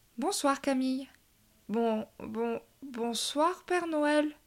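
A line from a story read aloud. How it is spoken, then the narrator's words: Stammering. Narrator (French): bredouilla-t-elle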